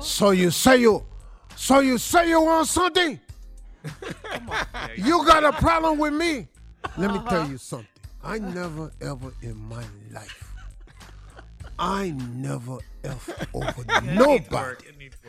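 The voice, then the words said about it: Weak put-on Cuban accent. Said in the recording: “my Cuban accent ain't worth a damn. Y'all ain't gonna believe me at all.”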